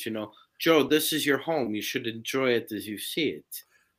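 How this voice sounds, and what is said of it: Weak German accent impression. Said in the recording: “I can't do a very good German accent ... I like Christopher Waltz from uh, Inglourious Basterds”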